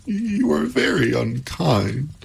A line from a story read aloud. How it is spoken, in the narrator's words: said Pandora, sobbing anew